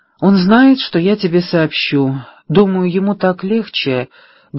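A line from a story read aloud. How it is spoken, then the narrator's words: Sad. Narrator (Russian): грустно произнесла Пэрис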